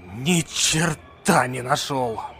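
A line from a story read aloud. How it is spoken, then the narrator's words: Breathed out. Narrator (Russian): Выдохнул он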